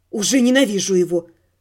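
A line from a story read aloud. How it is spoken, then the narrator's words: Muttered. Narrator (Russian): Пробормотала я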